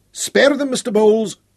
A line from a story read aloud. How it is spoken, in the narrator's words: Cumbrae shouted